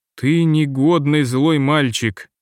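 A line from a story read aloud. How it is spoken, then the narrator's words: Plain. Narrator (Russian): сказала она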